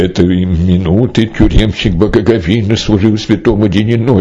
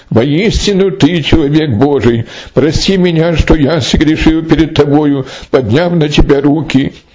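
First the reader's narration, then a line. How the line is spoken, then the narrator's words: Pleading exclamation. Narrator (Russian): Страж воскликнул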